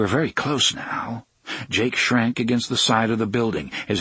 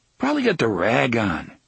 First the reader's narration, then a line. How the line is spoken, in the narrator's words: Henry said in a philosophical tone